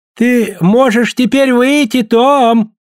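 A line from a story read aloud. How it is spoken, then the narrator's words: Shouted. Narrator (Russian): крикнул мэр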